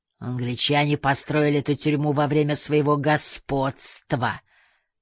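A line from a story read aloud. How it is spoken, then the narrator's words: Hissed. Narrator (Russian): прошипел он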